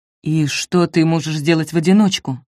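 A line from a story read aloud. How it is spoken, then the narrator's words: Plain. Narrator (Russian): спросил Альда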